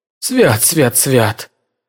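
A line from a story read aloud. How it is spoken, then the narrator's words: Mumbling to nobody. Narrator (Russian): пробормотал он, наконец, в пустоту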